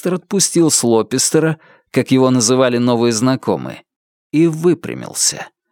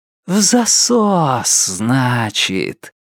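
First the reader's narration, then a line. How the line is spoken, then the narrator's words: Velvety singsong. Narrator (Russian): пропел Лестер своим новым бархатным голосом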